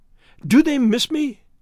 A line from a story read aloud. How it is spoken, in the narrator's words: she cried ecstatically